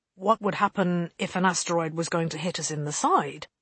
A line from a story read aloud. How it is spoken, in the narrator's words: Holston asked